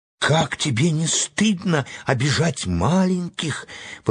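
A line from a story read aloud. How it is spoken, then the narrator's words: Exclaimed. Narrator (Russian): воскликнула Энни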